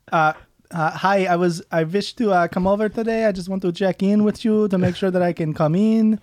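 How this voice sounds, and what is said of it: Bad put-on Eastern European accent. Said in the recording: “That's an awful Eastern European accent. ... I definitely went like Hispanic for a second.”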